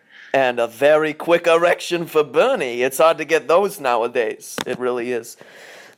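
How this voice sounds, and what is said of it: Imitates another person's voice. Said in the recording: “good Bernie Sanders impression”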